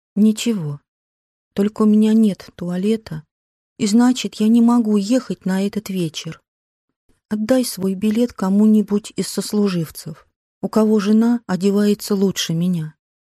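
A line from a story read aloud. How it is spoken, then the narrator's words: Calm, suppressing grief. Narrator (Russian): Сделав над собой усилие, она подавила горе и ответила спокойным голосом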